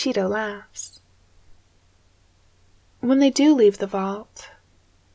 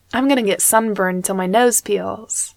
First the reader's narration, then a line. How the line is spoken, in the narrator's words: she says